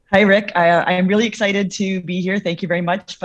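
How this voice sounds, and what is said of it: Slightly hoarse voice. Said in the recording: “apologize for my voice. I'm a little hoarse from all the cheering”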